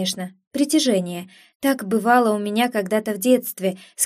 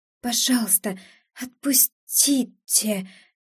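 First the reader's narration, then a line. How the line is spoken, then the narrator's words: Hoarse trembling plea. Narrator (Russian): хрипло проговорила я, едва управляя подрагивающими губами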